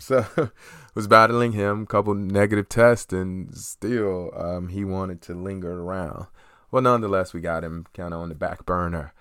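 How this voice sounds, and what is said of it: Slightly raspy voice. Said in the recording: “Probably hear a little raspy in my voice. I've been down with the common cold.”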